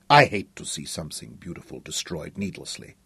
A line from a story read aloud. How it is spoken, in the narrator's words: Katinka whispered